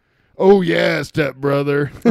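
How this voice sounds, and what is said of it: Imitates another person's voice. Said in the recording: “my impression of Hulk Hogan”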